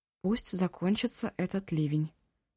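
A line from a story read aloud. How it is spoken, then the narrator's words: Quiet. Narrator (Russian): тихо сказала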